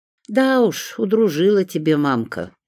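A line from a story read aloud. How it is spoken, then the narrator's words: Rueful sigh. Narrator (Russian): сокрушенно вздохнула Римма Марковна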